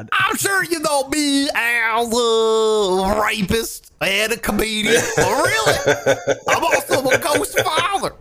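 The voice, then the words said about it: Imitates another person's voice. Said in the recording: “That's a good impression. ... It's honestly a lot better than I could possibly do. ... My Bill Cosby impression.”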